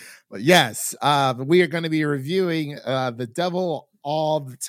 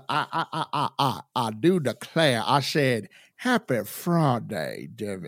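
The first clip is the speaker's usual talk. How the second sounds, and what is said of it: Put-on Southern US accent. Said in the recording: “Where's the Southern accent? Come on. ... we do that Southern Ohio, West Virginia accent”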